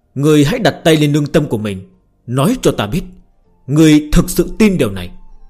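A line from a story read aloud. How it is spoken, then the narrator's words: Loud speech. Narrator (Vietnamese): Lam Ngự Điền lớn tiếng nói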